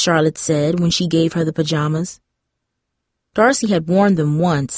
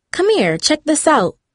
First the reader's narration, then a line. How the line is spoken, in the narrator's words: Brisana exclaimed